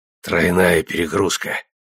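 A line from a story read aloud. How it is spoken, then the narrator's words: Strained hoarse rasp. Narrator (Russian): прохрипел он, силясь улыбнуться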